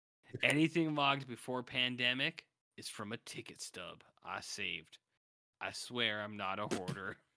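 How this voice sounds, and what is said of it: Drifting into a southern accent. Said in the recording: “You've started to drift into this southern accent.”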